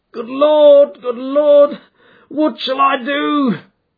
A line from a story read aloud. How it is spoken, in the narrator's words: cried the stranger in an ecstasy of despair